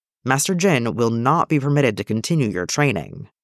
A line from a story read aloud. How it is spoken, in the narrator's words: Master Windu said firmly